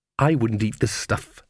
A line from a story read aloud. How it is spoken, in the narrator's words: she said bitterly